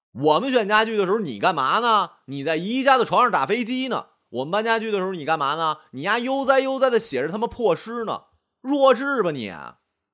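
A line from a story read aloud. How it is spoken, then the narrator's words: Furious roar. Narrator (Chinese): 吴浩然当场就急了 大吼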